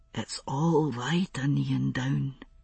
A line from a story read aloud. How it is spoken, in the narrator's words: he murmured